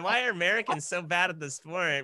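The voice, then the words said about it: Imitates another person's voice. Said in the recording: “that voice ... where that voice comes from ... who I'm mimicking there”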